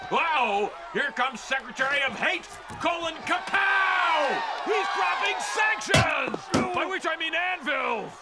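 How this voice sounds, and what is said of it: Big loud yelling announcer voice. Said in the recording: “a big, powerful announcer voice performance... screaming... his loud yelling mode”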